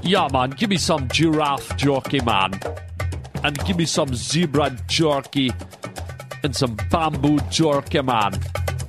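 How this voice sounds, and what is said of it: Put-on Jamaican-style accent. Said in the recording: “I think that was a Jamaican guy in Africa. I don't know my African accent”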